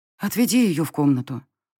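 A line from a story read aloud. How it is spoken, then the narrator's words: Advising with a sigh. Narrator (Russian): вздохнув, посоветовала я оборотню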